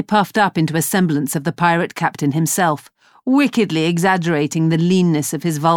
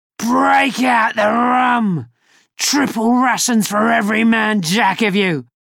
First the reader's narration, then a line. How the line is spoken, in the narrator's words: The roaring growl of the shapeshifter's delivery